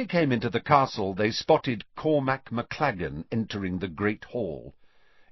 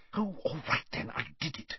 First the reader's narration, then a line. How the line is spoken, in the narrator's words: she whispered